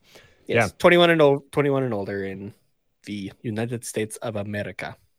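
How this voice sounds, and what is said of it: Unidentified put-on accent. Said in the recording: “I don't know why I said it like that. I don't even know what accent either.”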